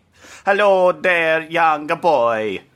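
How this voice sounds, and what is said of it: Bad put-on Italian-sounding accent. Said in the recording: “an Italian in Hungary? ... the least offensive accent. Trying to do a Hungarian accent, really difficult ... my accent was bad”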